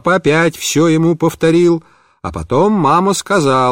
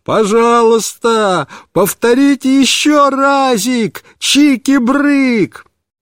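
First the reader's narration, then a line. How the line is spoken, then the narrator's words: Delighted full-throated shout. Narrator (Russian): Он весь рассиялся от удовольствия и снова закричал папе во все горло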